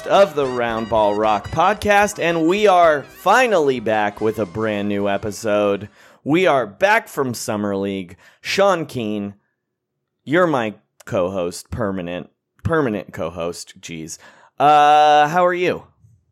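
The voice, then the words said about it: Hoarse, worn-out voice. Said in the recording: “my voice is shot, ... in case listeners are wondering why it sounds funny. ... karaoke place ... immediately my voice was gone.”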